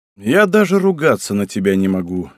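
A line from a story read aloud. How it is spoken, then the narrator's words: Sighing. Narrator (Russian): вздохнул Асикага Чишоу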